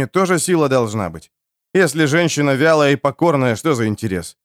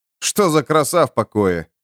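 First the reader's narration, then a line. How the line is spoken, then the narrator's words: Warrior snorting. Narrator (Russian): фыркнул воин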